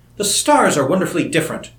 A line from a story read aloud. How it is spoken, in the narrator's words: she exclaimed to him